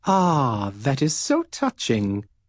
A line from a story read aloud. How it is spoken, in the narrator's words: she said kindly